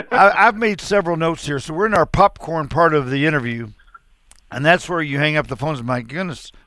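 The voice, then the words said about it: Southeast Missouri American accent. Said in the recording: “your Northeast Missouri accent probably would give you away ... Well, it'd be the Southeast”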